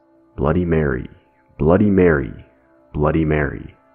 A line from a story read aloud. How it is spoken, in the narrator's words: said in a low voice